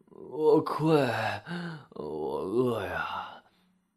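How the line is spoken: Low voice. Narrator (Chinese): 他低声地说

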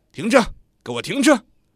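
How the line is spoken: Drunken loud shouting. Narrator (Chinese): 喝得醉醺醺 借着酒劲儿 嘴里大声叫着

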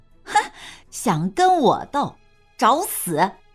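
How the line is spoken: Cold sneer. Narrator (Chinese): 焦青柳冷笑一声

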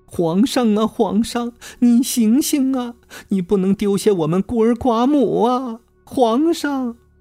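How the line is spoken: Tearful wailing plea. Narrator (Chinese): 她顿时眼圈一红，泪流满面地哭诉道

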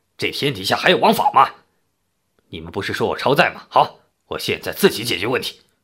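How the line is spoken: Furious roar. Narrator (Chinese): 老憨再也忍不住了，他涨红着脸大声地吼道

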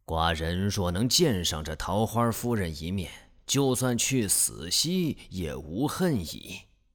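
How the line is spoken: Sighing. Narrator (Chinese): 楚文王听了，垂头叹曰

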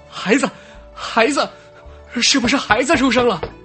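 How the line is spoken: Excited shout. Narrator (Chinese): 曾家主人……激动的……兴奋地喊出声来

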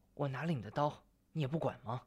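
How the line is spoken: Helpless low reminder. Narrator (Chinese): 白玉楼无奈地低声提醒

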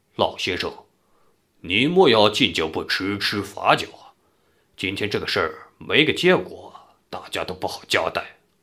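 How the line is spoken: Cold. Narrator (Chinese): 岳屠夫在边冷冷道

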